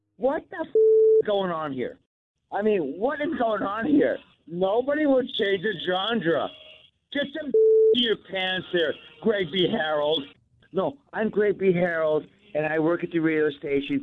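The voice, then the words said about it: Uncanny impression of Greg B. Harrell. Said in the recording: “that uncanny impersonation”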